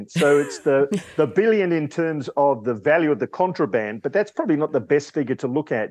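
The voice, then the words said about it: Australian accent. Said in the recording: “Probably the Australian accent.”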